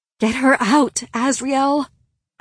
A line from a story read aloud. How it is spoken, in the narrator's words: I begged him, panting